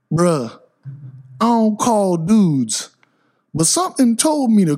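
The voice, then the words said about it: Imitates another person's hip hop voice. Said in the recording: “I'll do his voice the best I can. He comes from hip hop, right? White guy coming from hip hop.”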